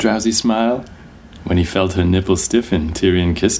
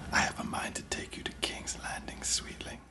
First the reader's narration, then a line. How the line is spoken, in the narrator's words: whispered